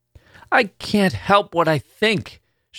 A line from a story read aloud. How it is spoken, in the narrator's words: cried out suddenly